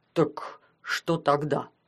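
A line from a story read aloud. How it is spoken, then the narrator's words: Deep bass voice. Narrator (Russian): пробасил Умрюк Паша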